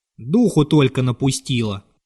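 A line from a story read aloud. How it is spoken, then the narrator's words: Grumbling. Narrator (Russian): ворчал Ермилыч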